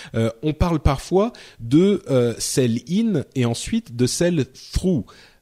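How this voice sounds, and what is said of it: English words in French accent. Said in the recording (French): “Je, je, le dis avec un accent français.”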